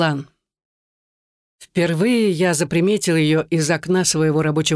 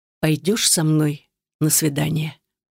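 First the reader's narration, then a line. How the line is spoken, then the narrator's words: Low thrilling whisper. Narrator (Russian): будоражаще низким тоном шепчет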